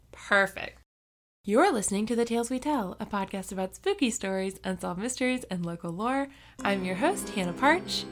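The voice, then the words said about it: Exaggerated public-radio announcer voice. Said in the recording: “You went in full NPR voice. ... You were a little extra NPR-y.”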